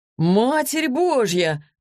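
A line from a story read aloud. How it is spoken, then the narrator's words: Amazed exclamation. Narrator (Russian): воскликнул Денис при виде преображенной Василисы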